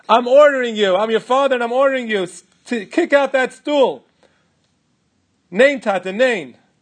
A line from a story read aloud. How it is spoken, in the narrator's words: my father screamed at me